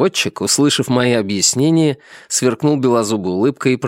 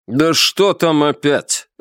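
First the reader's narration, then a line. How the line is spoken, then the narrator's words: Irritated. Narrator (Russian): раздраженно произнес Павел Карлович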